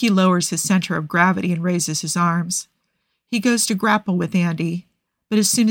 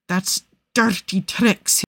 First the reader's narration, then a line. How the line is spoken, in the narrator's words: says through gritted teeth